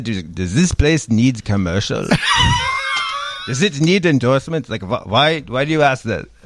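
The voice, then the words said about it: Put-on German accent. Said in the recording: “this is the best German accent I could do”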